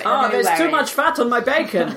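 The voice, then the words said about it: Put-on Danish accent, sounds like Arnie. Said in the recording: “Is that a good accent? ... It's very good. It's quite Arnie. ... An Austrian.”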